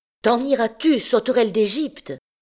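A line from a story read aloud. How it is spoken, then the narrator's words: Shrill cry. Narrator (French): cria une voix aigre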